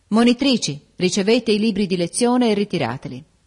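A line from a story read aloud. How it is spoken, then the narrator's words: Exclaimed. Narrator (Italian): esclamò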